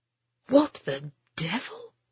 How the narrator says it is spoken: Ben heard the colonel mutter

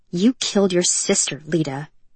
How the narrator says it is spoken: Mariel spat

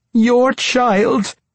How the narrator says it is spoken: she begged pathetically

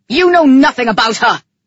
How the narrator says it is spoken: he screamed

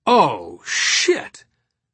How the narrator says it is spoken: Dominic exclaimed

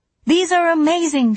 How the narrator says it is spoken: she said, a little too loudly, hoping to distract her own brain from its traitorous thoughts

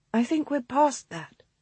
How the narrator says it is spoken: Rose said quietly

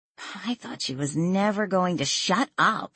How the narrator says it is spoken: Lily said under her breath

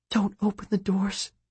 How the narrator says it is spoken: Solomon whispered, trying to stay calm

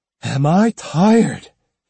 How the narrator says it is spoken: he sighed

